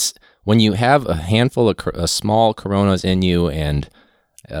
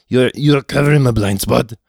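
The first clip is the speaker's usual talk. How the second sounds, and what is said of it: Bad Arnold Schwarzenegger impression. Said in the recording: “Worst impression ever... you do the Arnold Schwarzenegger impression, even if it's terrible.”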